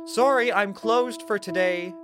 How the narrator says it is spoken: called out

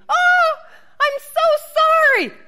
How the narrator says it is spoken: scream

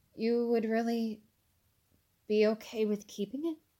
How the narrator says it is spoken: asked, somewhat hesitantly

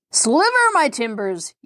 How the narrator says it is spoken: yelled Mr

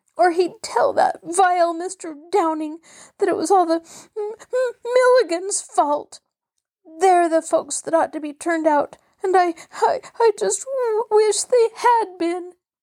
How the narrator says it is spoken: sobbed Mabel

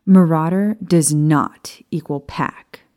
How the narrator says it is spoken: she said firmly

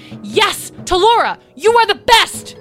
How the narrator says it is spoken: she yelled

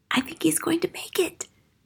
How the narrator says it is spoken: Matilda whispered

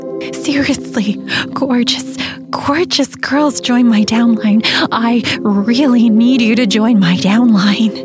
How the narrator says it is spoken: she said through gritted teeth

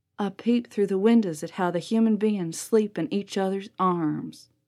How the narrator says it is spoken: he whispered and mumbled, and finally he said real low

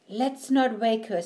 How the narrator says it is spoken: said Willie

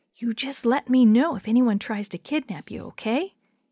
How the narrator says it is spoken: Dee Dee whispered

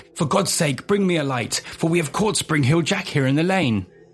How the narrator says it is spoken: The cloaked man at the gate shook impatiently, shouting back

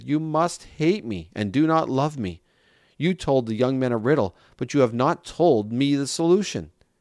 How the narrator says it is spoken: So Samson's bride cried on his shoulder and said

